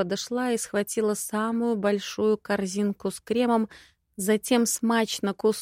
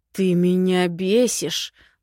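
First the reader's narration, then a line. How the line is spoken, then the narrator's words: Through gritted teeth. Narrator (Russian): процедил он сквозь зубы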